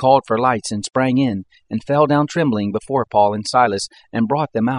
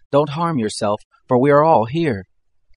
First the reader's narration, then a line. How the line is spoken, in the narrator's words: Paul cried with a loud voice, saying